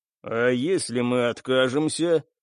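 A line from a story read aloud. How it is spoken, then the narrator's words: Cold, indifferent voice. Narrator (Russian): Голос капитана по-прежнему звучал холодно и равнодушно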